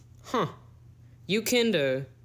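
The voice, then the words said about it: Put-on Southern man accent. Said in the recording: “it was a Southern man. I got to put on my Southern man accent.”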